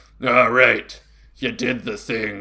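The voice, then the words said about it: Gruff dad character voice. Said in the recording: “your dad voice ... I have to put a little bit of a different inflection for dad and mentor.”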